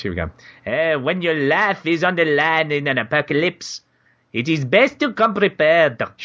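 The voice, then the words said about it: Put-on French accent. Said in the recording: “What accent am I doing now? ... You're doing French. ... Is that French? I don't know. It'll do.”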